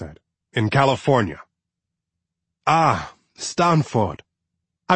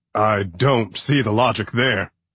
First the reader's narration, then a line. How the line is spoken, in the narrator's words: Clark said, chuckling